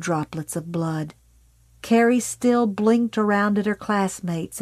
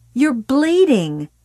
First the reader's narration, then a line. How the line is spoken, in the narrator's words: Sue yelled suddenly, furiously